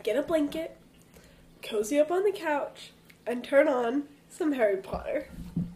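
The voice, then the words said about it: Stuffy, congested voice. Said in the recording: “Do I sound a little stuffy? ... A little bit. ... We're sick.”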